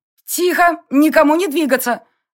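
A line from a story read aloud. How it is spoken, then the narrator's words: Barked. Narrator (Russian): рявкнула я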